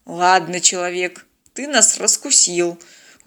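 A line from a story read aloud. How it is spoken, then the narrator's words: Tired. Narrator (Russian): устало сказал Станислав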